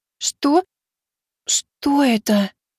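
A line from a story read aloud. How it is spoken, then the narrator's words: Enchanted breathless exclamation. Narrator (Russian): Зачарованная прекрасным видом выдохнула Миваки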